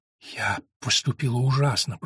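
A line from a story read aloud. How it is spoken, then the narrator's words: Whisper. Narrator (Russian): прошептала она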